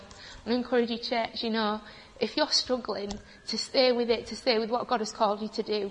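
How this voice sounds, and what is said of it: Emotional, choked-up voice. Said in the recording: “I'm getting emotional.”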